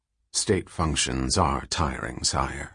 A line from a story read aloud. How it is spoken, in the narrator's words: murmured Demerzel